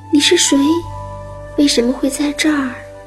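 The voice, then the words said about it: Trembling, frightened voice. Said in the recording (Chinese): “声音颤抖地说”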